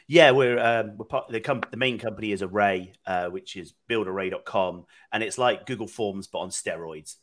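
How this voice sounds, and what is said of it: British accent. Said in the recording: “You're a Brit. ... as you can tell from the accent, ... I'm originally from the UK”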